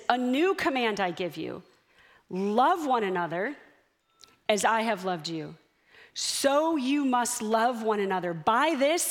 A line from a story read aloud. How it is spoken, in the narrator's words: he says